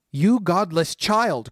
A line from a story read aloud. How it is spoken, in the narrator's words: cried the sorceress